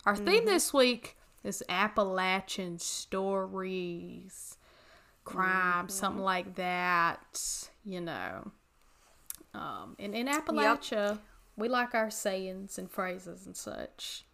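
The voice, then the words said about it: Appalachian North Carolina accent. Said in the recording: “is, if you could not tell via her accent.”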